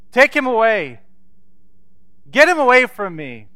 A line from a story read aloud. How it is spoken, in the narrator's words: she shouted to the nurses around her